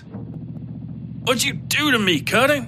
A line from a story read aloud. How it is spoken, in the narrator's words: Miskell shouted